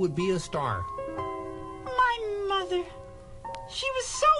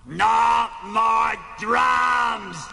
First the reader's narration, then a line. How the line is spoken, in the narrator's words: Animal bellowed